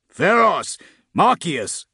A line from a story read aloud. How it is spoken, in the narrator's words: Grimm said, as another volley thundered into the enemy